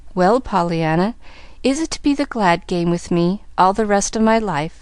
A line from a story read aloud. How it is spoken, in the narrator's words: asked the man gently